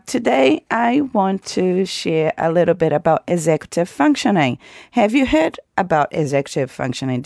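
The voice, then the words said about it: Voice sounds unwell, still recovering. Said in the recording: “I also got incredibly sick for a number of weeks. You may hear in my voice that I'm still recovering”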